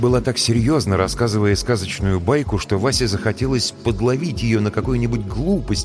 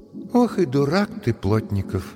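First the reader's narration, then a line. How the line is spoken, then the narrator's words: Sighing remark. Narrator (Russian): вздохнув, сказала Машка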